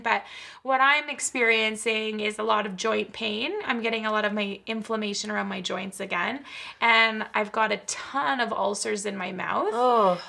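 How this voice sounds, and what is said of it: Slightly muffled, odd-sounding speech. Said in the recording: “if I sound a little weird, a little muffled”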